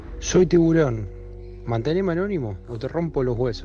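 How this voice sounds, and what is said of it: Put-on disguised character voice. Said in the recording (Spanish): “Puso la voz, se animó a poner la voz.”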